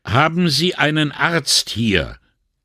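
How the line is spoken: Extra loud inquiry. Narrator (German): erkundigte sich Brunetti mit extra lauter Stimme

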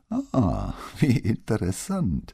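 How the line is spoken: Laughing. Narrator (German): sagte Mara und lachte wieder

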